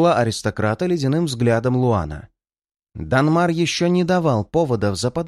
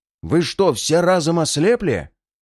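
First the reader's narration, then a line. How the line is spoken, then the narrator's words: Menacing growl of clan head. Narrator (Russian): грозно прорычал глава рода Эстуан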